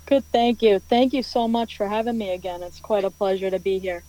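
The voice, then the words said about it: Boston accent. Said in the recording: “Boston, Massachusetts ... I love your accent”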